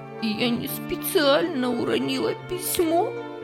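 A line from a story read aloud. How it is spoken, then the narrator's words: Sobbing excuse. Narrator (Russian): всхлипывая, оправдывалась она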